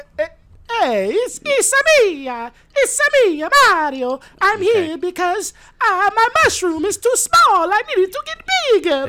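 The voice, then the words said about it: Mario video game character voice. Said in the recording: “hear your Mario impression”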